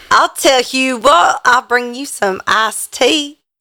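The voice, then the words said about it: Put-on Southern accent. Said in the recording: “Has a southern accent. Southern accent for all of them now.”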